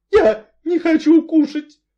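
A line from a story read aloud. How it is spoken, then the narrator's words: Sorrowful sob. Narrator (Russian): горестно всхлипнула миссис Ривз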